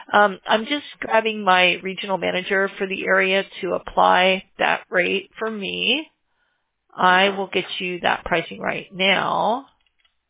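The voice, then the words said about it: Strained, fading voice. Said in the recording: “Excuse me, I'm losing my voice.”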